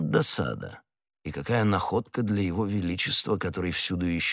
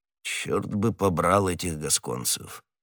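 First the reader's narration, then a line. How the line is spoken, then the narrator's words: Muttered. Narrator (Russian): все же пробормотал он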